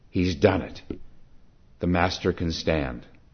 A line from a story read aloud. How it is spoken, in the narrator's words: Seeing his beaming face, a man exclaimed